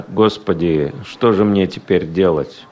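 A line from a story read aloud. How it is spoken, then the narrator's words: Muttering to himself. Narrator (Russian): пробормотал про себя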